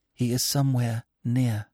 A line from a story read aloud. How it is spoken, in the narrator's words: she whispered